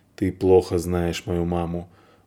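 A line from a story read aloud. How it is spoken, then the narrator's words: Grumble. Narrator (Russian): буркнул драматург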